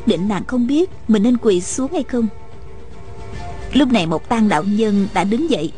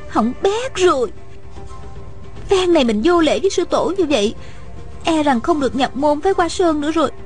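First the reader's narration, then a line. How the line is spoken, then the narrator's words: Panicked, ashamed inner cry. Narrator (Vietnamese): Hạ Thiết Thủ vừa hoảng sợ vừa xấu hổ, thầm la lên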